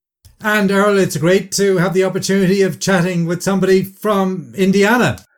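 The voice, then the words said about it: Irish accent. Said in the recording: “you got a little bit of a Irish accent going on there”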